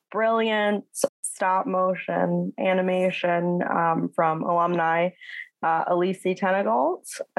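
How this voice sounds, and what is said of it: Midwestern American accent. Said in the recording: “my terrible Midwestern American accent”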